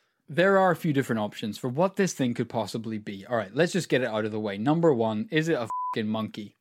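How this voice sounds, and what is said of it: Usual voice. Nothing is said of it.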